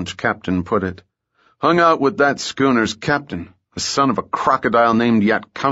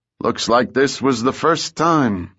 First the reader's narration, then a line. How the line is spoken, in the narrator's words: replied with a grim chuckle